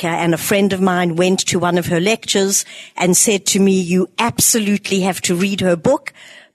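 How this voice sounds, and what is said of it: South African accent. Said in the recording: “I'm from South Africa, those of you who recognize the accent”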